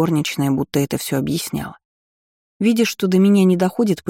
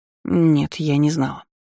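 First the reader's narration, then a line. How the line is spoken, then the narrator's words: Confused mumble. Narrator (Russian): растерянно пробормотала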